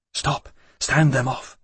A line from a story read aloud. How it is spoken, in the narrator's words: she said under her breath